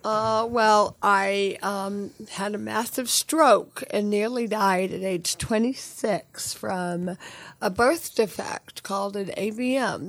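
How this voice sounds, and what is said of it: Slightly hoarse voice. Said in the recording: “I'm a little hoarse,”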